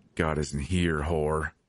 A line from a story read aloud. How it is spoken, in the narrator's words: he snarled